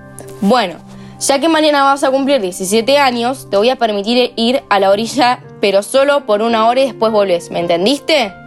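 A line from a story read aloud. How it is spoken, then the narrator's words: Firm voice. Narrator (Spanish): dijo con voz firme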